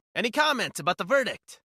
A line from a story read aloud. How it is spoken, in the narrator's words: a reporter hollered